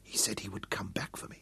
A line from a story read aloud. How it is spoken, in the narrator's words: Dorian whispered